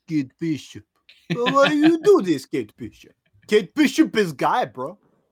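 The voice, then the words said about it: Put-on Russian accent. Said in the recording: “I definitely started speaking in a Russian accent”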